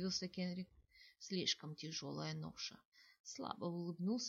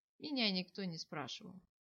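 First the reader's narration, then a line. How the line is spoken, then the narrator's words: Sighing young man. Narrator (Russian): вздохнул юноша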